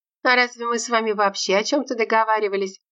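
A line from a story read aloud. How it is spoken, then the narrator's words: Laughing again. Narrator (Russian): Снова засмеялась Зиновия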